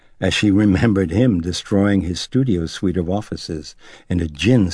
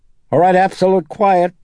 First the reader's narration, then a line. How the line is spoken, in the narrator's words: the assistant director called out